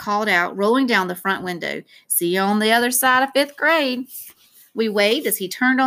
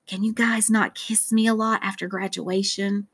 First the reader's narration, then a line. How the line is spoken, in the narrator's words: I asked quietly